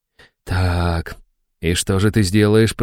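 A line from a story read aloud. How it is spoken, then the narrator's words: Whisper. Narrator (Russian): прошептал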